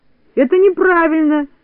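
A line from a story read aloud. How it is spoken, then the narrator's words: Shout. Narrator (Russian): закричал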